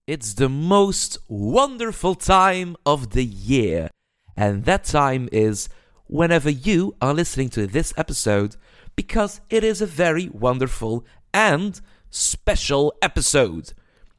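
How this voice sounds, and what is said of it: Accented English. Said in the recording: “I'm very sorry for my accent”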